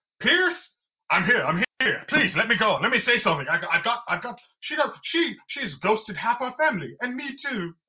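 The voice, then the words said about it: Deliberately bad put-on English accent. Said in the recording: “Your English accent is terrible, by the way, bro. ... I actually wanted to be terrible. ... Your English accent is diabolical.”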